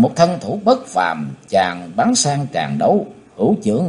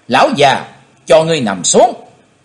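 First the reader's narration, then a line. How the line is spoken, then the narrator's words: Loud shout. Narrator (Vietnamese): chàng hét to lên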